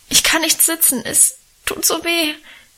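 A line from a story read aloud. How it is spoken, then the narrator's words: Whimpering lament. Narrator (German): jammerte ich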